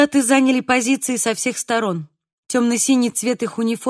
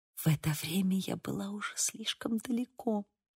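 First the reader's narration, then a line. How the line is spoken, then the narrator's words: Whisper. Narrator (Russian): прошептала я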